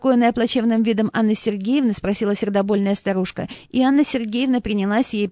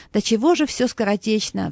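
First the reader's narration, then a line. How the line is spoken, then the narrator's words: Sighing. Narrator (Russian): вздохнула Анна Сергеевна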